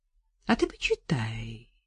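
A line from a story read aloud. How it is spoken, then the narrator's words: Insinuating, ingratiating. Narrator (Russian): вкрадчиво сказал Воскобойников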